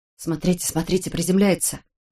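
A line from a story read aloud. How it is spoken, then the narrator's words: Loud snort. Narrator (Russian): Громко фыркнула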